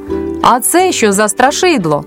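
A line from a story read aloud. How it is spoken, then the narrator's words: Child shouting. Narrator (Ukrainian): Якийсь хлопчик закричав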